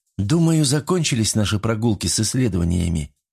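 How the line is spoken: Sad woman. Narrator (Russian): грустно сказала она

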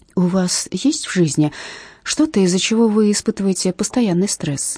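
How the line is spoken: Soft question. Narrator (Russian): мягко спрашиваю я

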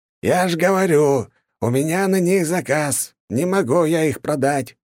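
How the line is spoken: Shouting. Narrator (Russian): кричал таксидермист

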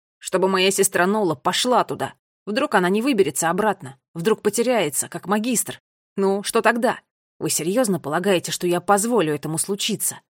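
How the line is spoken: Shouted. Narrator (Russian): Последнюю фразу Финн уже выкрикнул

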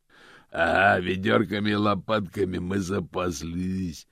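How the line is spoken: Growl from carriage. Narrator (Russian): прорычал голос из кареты

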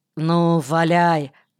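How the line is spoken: Grumbled. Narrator (Russian): буркнул Кирка

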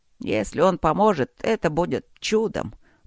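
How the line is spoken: Grumbling. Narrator (Russian): проворчал он

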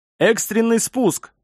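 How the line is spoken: Shouted command. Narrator (Russian): выкрикнул он приказ

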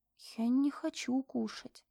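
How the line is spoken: Quiet. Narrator (Russian): тихо проговорила

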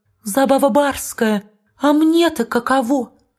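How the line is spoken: Timid. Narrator (Russian): Хозяин молвит робко

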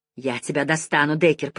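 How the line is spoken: Hissing while struggling. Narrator (Russian): прошипела Жанин, пытаясь освободиться

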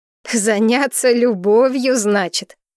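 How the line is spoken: Laughing. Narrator (Russian): засмеялась я

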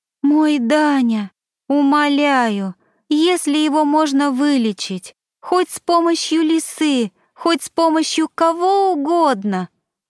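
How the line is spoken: Moaning mother's plea. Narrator (Russian): простонала фазанчик мама

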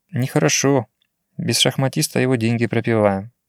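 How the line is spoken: Thoughtful. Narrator (Russian): задумчиво произнес

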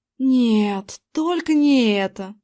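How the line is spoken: Inner groan. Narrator (Russian): Я мысленно застонал

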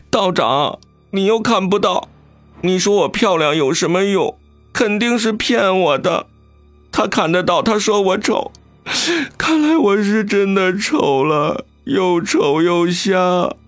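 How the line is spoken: Crying harder. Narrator (Chinese): 阿晶哭得更凶了，跺脚道

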